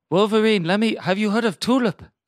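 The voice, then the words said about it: Dracula-style put-on accent. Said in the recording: “What accent am I doing? ... Dracula.”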